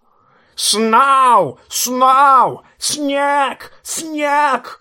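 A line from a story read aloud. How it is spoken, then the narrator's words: Excited raven screeching. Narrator (Russian): орал ворон Мормонта, не менее взбудораженный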